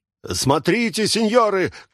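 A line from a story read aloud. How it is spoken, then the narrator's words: Shouting. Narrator (Russian): кричал цирюльник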